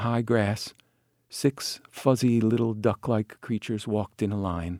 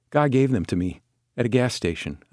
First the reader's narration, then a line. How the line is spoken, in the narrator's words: Albert said